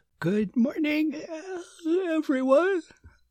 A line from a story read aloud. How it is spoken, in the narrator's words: said Susan with a yawn